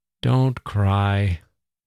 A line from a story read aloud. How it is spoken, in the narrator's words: he said in his warm, loving voice